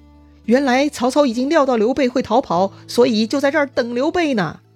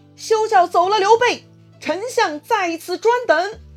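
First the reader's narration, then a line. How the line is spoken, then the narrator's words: Shouting from a hilltop. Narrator (Chinese): 山头上就有人在大喊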